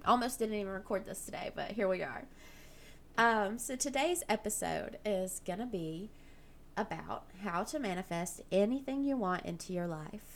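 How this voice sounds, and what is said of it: Slightly rough, sick-sounding voice. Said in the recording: “I sound a little rough, ... I'm just kind of getting over the sickness”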